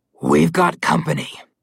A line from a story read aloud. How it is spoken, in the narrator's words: Malamclaw growled